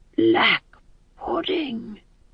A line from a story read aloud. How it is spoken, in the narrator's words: whispered